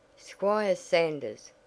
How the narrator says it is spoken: cried Miss Ellis, shocked and alarmed

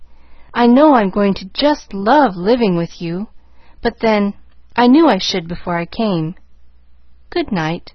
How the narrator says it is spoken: she called cheerfully

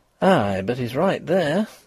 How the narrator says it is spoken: breathed Mrs

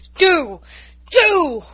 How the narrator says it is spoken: roared Norman

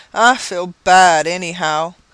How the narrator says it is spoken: with a smothered groan

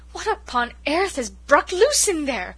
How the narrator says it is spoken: gasped Cousin Sophia

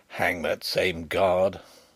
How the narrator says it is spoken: growled Sapt

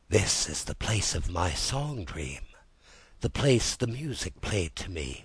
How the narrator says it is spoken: whispered Rat, as if in a trance

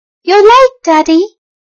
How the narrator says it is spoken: a boy's voice cried

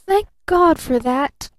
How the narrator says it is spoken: gasped little Eve Edgerton

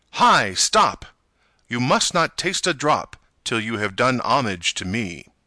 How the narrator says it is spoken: he cried out in a loud voice

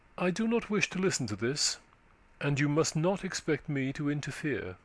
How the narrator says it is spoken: She replied coldly

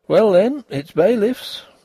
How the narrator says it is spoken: said Denry, but still cheerfully

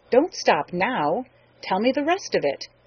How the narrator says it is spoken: he commanded sharply

